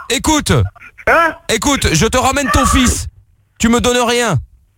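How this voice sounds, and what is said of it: Put-on Marseille French accent. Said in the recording (French): “voilà que j'ai l'accent marseillais maintenant”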